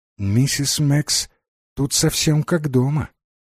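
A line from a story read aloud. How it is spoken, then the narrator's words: Quiet speech. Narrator (Russian): Джейн тихо сказать миссис Димбл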